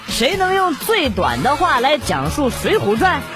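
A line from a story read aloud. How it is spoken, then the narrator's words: Plain. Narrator (Chinese): 小明说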